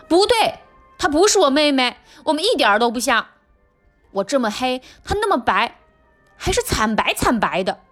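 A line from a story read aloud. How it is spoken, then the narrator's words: Shouting. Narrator (Chinese): 我大叫起来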